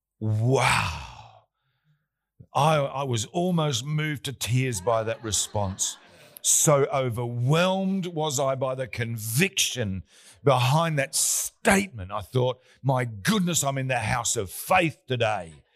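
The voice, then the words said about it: Sarcastic, mock-impressed delivery. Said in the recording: “That was sarcastic,”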